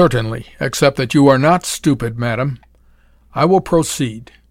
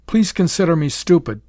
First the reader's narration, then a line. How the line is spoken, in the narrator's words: begged Betty